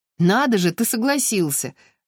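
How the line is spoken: Laughing. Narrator (Russian): рассмеялся Иван

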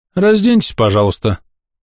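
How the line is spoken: Matter-of-fact tone. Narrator (Russian): будничным тоном произнес метаболит

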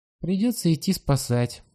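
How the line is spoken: Sighing. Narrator (Russian): вздохнул кузнечик

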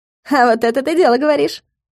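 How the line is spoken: Amused snort. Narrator (Russian): хмыкнула Галка

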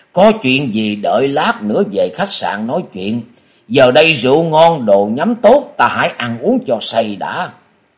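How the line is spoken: Laughing loudly. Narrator (Vietnamese): Quái Khiếu Quá cười to nói

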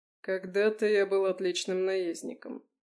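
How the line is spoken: Grim chuckling reply. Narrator (Russian): мрачно усмехнувшись, ответил Леконт

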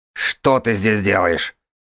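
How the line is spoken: Hateful bark. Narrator (Russian): рявкнула ненависть

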